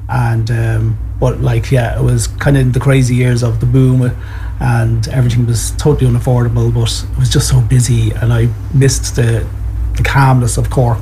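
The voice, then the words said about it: Strong Dublin Irish accent. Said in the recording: “my Dublin accent is still so strong”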